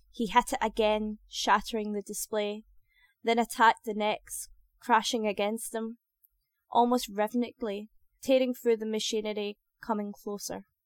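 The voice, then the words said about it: Scottish accent. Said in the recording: “To people who aren't used to a Scottish accent, I suppose I have an accent.”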